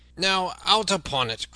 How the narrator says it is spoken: cried he

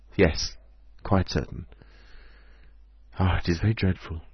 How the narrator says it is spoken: She sighed and said

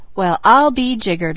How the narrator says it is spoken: laughed Peter

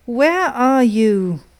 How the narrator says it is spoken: she cried again

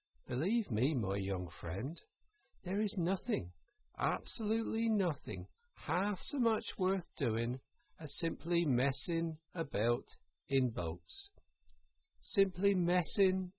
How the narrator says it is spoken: he went on dreamily

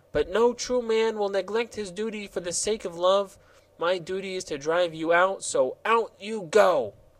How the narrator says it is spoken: answered the gardener earnestly

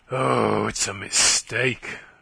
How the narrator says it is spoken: she groaned

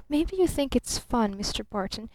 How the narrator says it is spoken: she whispered

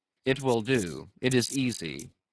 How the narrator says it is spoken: he murmured at last

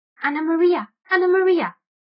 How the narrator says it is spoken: squeaked the rat

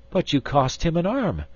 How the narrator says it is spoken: exclaimed Miss Theodosia

